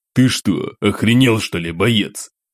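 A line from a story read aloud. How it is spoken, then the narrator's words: Irritated growl. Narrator (Russian): раздраженно рыкнул майор Шестаков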